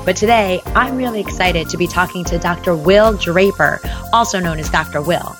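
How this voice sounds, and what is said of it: Slightly hoarse voice. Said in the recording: “I'm getting over a little bit of laryngitis”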